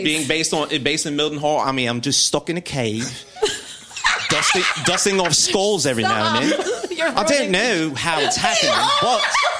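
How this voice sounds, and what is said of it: Bad put-on British accent. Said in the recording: “Is this meant to be a British accent?... It's so bad.”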